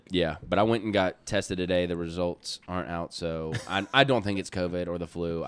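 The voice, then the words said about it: Sick-sounding voice. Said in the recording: “I sound a little different. I've been coming over some sort of sickness ... I'm sorry if I sound kind of”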